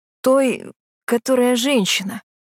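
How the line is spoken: Guard's strained wheeze. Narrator (Russian): не менее сдавленно просипел императорский стражник

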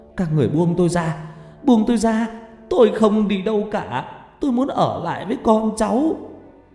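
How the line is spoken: Wailing, screaming. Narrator (Vietnamese): Bà gào khóc thảm thiết rồi hét lên

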